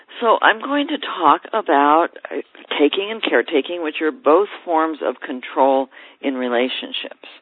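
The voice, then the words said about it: Tired, slightly gravelly voice. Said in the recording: “I am a little bit tired ... my voice is a little bit gravelly from being up so much”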